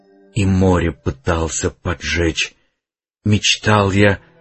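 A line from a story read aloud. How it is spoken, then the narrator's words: Uncertain whisper. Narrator (Russian): прошептал неуверенно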